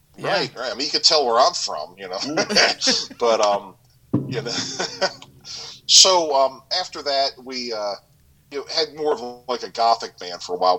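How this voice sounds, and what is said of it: Vaguely British laid-back stoner accent. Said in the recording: “it's almost like an English doper kind of a accent ... It's like a British Spicoli ... I can't get where you're from there by your accent”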